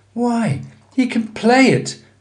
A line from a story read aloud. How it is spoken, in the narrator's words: cried Miss Ursula